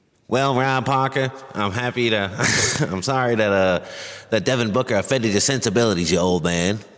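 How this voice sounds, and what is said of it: Poor imitation of a sportscaster voice. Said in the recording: “that was my poor imitation of the Howard Cosell impression”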